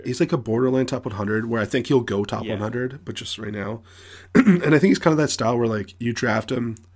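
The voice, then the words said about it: Hoarse, strained voice. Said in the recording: “I'm losing my voice. I'm sorry. ... I talk for 35 hours a week, so it's my issue.”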